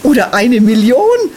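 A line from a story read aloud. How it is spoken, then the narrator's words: Laughing. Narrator (German): lachte Jola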